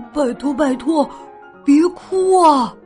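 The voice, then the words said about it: Whispered pleading. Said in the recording (Chinese): “小声的求着”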